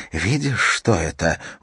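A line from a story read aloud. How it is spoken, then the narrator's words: Whispering. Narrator (Russian): услышал он ее шепот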